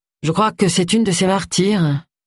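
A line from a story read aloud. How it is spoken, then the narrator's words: Bitter reply. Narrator (French): répondit Agatha d'une voix amère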